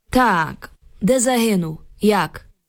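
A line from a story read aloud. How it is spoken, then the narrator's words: Suddenly gloomy, metallic voice. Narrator (Ukrainian): Солдат умить спохмурнів і заговорив металевим голосом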